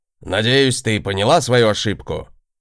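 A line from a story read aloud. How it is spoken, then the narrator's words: Lecturing tone. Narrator (Russian): закончил он, менторским тоном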